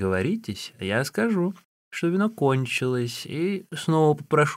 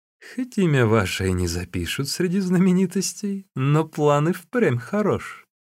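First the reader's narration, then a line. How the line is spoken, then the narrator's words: Pleased laughing speech. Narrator (Russian): даже рассмеялся от удовольствия и сказал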